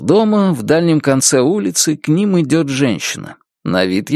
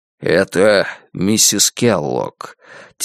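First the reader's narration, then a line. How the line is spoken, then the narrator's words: Quiet explanation. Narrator (Russian): тихо поясняет Джамал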